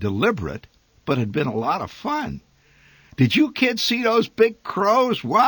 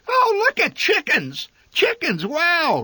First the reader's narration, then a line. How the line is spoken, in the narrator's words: Randy hollered ecstatically